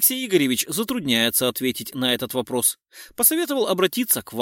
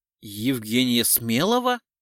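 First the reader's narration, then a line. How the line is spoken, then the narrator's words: Confused question. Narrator (Russian): растерянно спросила Самойлова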